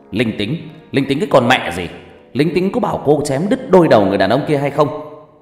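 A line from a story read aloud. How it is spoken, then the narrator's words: Loud angry yell. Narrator (Vietnamese): Đồng chí cảnh sát hình sự kia … hét lớn vào mặt của Ngọc Lam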